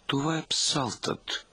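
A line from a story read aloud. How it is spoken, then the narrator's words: Amazed mutter. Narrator (Bulgarian): измърмори чуп, смаян повече от останалите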